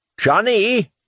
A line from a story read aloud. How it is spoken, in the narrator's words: He looked confused for a moment and yelled